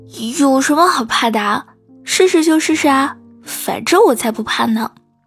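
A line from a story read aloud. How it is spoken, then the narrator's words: Loud, defiant. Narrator (Chinese): 小猫一脸不服气，大声的说道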